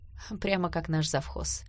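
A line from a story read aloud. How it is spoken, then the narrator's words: Muttered. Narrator (Russian): пробормотала Саша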